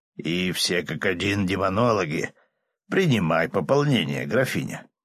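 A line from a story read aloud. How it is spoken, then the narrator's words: Snorting, man. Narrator (Russian): королевский дознаватель хмыкнул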